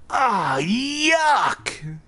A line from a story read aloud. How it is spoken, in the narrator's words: he cried